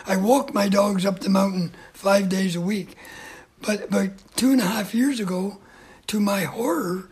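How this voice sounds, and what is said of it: Hoarse voice. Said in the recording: “I'm sounding a little hoarse”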